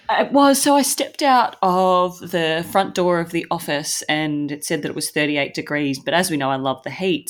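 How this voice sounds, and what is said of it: Congested, clogged voice with sniffling. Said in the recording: “I feel like I sound like an old man today just because I'm clogged with hay fever ... I'm a bit clogged ... excuse the sniffling ... the old man voice that I feel like I've got”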